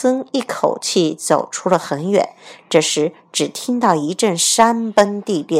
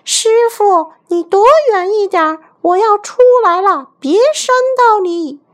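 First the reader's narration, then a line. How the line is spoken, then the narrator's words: Distant shout. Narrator (Chinese): 孙悟空在山下大喊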